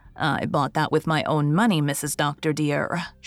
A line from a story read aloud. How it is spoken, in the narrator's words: she said firmly